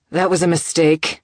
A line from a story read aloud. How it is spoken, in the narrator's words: he swore roughly